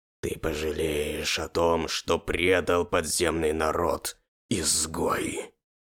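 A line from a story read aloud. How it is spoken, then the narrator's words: Demon growling. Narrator (Russian): Начал рычать демон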